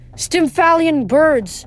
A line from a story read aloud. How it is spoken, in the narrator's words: Annabeth yelled